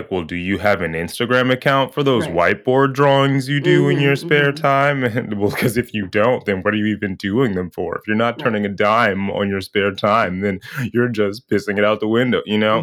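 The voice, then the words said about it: Nagging inner-voice impression. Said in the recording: “that was a impression of my internal voice ... That'd be nagging at the back of my ear”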